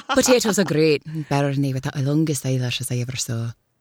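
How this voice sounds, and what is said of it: Put-on lilting Irish accent. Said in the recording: “For Irish ... such a lovely lilt to that”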